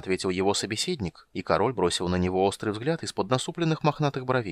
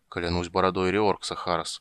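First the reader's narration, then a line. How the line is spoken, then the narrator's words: Muttered. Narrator (Russian): пробормотал он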